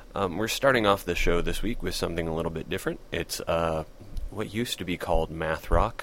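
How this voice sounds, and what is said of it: Sick, strained voice. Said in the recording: “You're listening to a very sick host this week ... my voice is probably going to go out by the end of this podcast”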